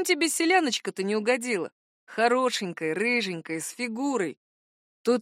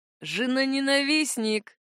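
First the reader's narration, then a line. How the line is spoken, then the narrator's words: Sighed. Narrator (Russian): вздохнул Вальд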